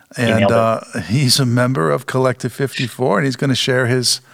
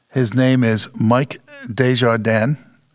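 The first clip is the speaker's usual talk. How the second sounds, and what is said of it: French accent pronunciation. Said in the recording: “my best French impression.”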